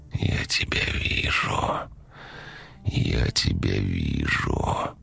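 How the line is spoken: Quiet. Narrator (Russian): тихо проговорил он

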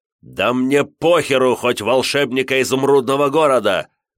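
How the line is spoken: Furious roar. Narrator (Russian): проревел Штырев

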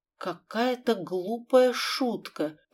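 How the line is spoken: Muttering. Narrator (Russian): пробормотала Елизавета

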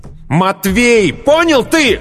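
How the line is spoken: Shouted with hatred. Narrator (Russian): выкрикнул с ненавистью

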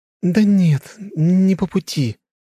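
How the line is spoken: Uncertain girl. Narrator (Russian): как-то неуверенно ответила девушка

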